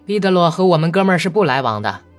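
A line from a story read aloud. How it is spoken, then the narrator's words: Awkward laugh. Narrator (Chinese): 伊万·阿里克谢耶维奇很尴尬地笑了笑说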